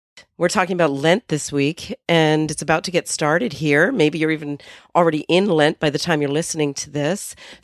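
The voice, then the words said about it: Hoarse voice from a cold. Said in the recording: “I'm still recovering from the cold ... my voice is sounding a little hoarse ... bringing out my inner Stevie Nicks ... This is all I have for a voice.”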